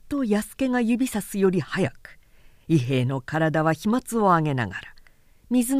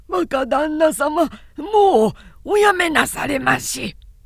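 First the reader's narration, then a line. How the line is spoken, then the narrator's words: Desperate shout. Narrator (Japanese): たまりかねて叫んだ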